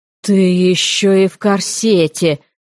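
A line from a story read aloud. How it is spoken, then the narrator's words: Agonized groan. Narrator (Russian): мучительно простонал Гаррет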